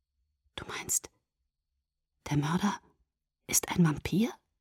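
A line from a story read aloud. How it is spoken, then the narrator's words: Whispered. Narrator (German): flüsterte ich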